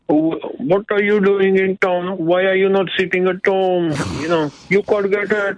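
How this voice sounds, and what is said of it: Put-on Asian accent. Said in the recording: “He's an Asian man doing an Asian accent”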